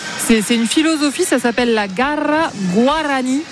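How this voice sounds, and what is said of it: Deliberately worked-on foreign accent. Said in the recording (French): “Oh, et, quel accent. ... Il a été travaillé.”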